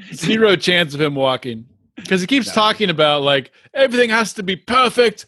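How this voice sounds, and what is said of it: Usual voice. Nothing is said of it.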